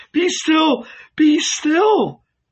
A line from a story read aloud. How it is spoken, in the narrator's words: he cried